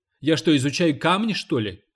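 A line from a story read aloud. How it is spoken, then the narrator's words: Yelling. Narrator (Russian): заорал Гарб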